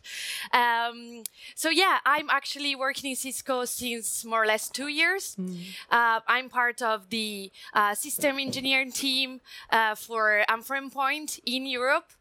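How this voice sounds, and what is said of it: Italian-accented English. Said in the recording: “I'm Italian, come from Italy, so you may notice from my accent.”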